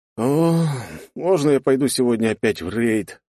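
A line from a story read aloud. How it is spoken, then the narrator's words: Despairing groan. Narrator (Russian): простонал я от безысходности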